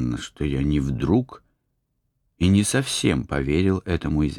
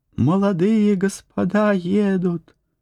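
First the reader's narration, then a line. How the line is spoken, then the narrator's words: Loud shout. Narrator (Russian): вбежала к нам в комнату девушка Феклуша и громко закричала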